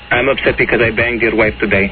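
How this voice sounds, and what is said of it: Fake foreign accent. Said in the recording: “It's a fake accent.”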